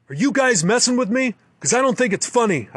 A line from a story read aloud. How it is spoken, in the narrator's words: shout